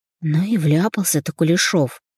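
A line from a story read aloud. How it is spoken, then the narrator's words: Muttered under breath. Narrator (Russian): пробормотала она себе под нос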